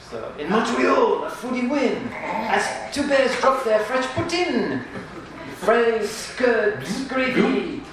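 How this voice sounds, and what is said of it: Deliberately bad Quebecois French accent. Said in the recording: “my really bad Quebecois accent”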